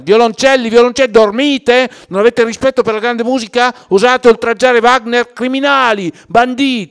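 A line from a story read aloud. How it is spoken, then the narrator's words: Shouted. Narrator (Italian): Non sentiva quello che avrebbe voluto e allora aveva gridato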